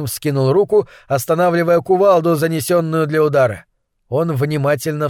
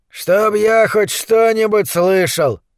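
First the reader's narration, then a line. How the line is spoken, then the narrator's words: Grumbling giant. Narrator (Russian): проворчал какой-то бородатый гигант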